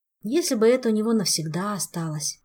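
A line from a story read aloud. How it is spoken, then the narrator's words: Young elf sighing. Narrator (Russian): вздохнул юный эльф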